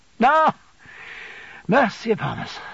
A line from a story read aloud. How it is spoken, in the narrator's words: sighed my aunt